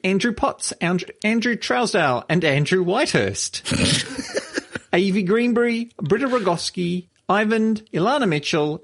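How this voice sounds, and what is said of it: Australian accent. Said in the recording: “your accent is shocking ... you're Australian”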